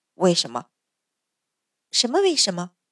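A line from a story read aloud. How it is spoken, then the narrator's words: Low question. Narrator (Chinese): 淳于信低声问道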